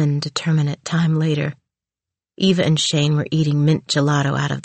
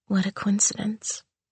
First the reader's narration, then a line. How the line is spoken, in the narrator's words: she whispered back